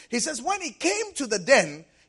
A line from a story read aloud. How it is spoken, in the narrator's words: he cried with a lamentable voice unto Daniel